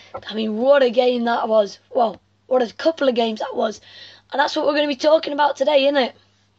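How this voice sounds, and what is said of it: Strained, worn-out voice. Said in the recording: “my voice is not in the best state ... I've been shouting too much”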